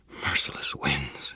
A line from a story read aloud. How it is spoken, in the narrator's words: she breathed